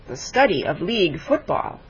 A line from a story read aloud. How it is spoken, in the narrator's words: said Smith